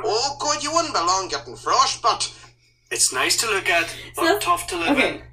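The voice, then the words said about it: Thick Scottish accent. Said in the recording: “That's a pretty thick accent ... Scottish”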